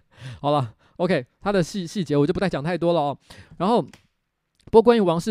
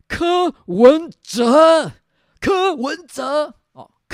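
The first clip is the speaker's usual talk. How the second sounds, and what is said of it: Impression of Wang Shih-chien. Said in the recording (Chinese): “模仿王世坚的一个诀窍。我在这边可以给大家就是做一个示范。王世坚基本上讲话的时候呢，他就是会先分两段，他先讲名词，再讲形容词”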